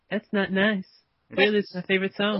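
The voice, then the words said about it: Imitates another person's voice. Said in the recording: “Are you going to do Michael through the whole skit? ... I love your impression. ... listening to you is like maybe he's here with us again.”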